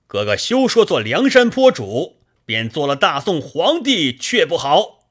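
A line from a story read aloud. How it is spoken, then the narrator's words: Shouting. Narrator (Chinese): 黑旋风李逵在侧边叫道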